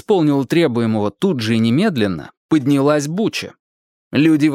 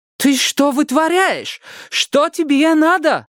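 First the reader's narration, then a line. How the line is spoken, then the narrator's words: Shouting. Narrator (Russian): кричала она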